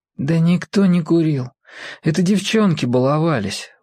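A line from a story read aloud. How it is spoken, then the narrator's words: Tired. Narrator (Russian): устало сказал Володя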